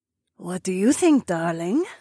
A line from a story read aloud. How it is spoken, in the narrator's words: Zoe purred